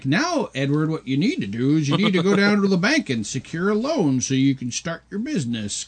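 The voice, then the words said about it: Poor imitation of another person's voice. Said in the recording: “worst Alan Arkin impression I've ever heard ... It's horrible.”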